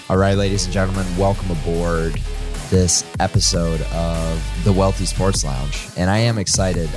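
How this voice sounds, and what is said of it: Voice a little off, like a cold. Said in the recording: “I think I might have a cold or something. My voice is a little off right now”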